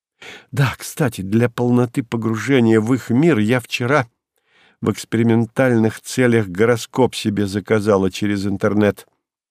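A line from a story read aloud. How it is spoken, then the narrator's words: Disarmingly confiding tone. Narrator (Russian): подкупающе доверительным тоном сообщила она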